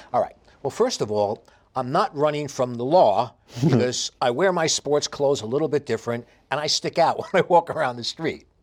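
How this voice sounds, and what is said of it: Heavy New York accent. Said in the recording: “I have the heaviest New York accent”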